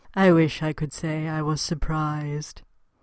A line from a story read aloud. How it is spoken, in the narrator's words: a metallic voice intoned